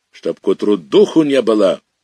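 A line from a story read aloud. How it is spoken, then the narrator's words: Furious bark. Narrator (Russian): уже с ярой, с темноты гаркнул он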